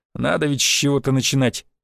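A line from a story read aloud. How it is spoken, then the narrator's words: Amused snort. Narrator (Russian): хмыкнул первый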